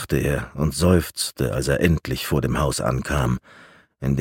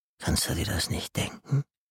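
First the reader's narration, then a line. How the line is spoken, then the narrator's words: Hissing voice from darkness. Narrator (German): zischende Stimme aus der Dunkelheit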